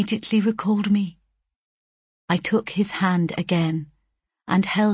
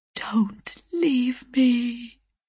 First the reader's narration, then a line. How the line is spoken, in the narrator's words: a faintly whispered